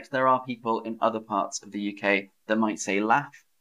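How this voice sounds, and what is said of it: Southern English accent. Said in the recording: “Aubergine is definitely more British... That's my accent. That's my dialect... in the South I say laugh, or plant, or bath. That's a feature of my region of England, the South.”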